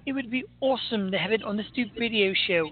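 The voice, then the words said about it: Poor imitation of another person's voice. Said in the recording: “my horrible Lilith impersonation”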